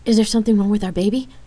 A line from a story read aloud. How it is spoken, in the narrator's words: Rain anxiously asked